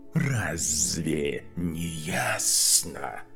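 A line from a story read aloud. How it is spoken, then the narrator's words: Snake's hiss. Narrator (Russian): прошипела змея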